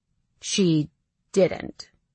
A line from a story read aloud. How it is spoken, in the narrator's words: he says slowly